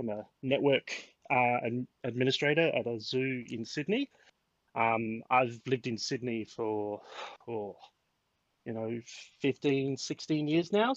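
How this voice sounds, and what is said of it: Australian accent, Adelaide vowels. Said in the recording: “I have a funny accent, especially with my ad my my Adelaide A's ... I say dance instead of dance”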